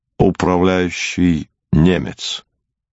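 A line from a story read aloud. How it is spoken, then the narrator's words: Calm reply. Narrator (Russian): Пауль Сепп спокойно отвечал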